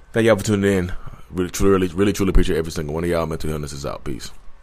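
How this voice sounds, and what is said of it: Slightly scratchy, hoarse voice. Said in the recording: “My voice is getting a little scratchy.”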